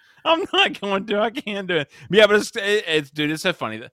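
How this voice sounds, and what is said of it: Usual voice. Nothing is said of it.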